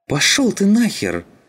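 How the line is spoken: Hysterical exclamation. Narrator (Russian): истерично воскликнул эстонец

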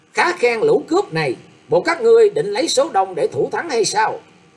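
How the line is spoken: Young man's loud shout. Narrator (Vietnamese): Người thiếu niên cũng quát to lên rằng

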